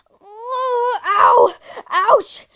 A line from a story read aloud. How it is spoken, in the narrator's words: screamed